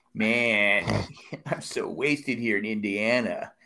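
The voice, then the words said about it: Stoner surfer voice. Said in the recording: “some kind of stoner surfer voice ... stoner surfer boy ... Read it in that voice”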